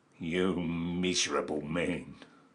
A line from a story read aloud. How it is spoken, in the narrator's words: said the king of the goblins, in a more contemptuous tone than before